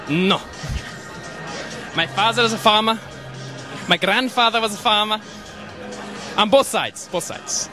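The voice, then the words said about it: Strong European accent. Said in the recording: “With a crazy accent as well ... that gives you that accent ... Europe.”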